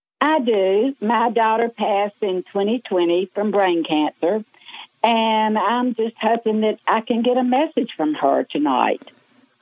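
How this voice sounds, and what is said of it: Southern American accent. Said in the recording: “Except you really sound like it. ... I always said I never had a Southern accent. My daughter was going, "Mother, are you kidding me?"”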